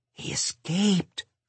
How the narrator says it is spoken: I whispered

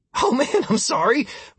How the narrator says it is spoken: Martin said, laughing

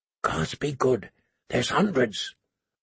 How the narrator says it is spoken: a voice said softly

